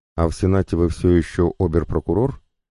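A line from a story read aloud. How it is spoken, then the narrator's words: Plain. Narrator (Russian): спросил Николай Петрович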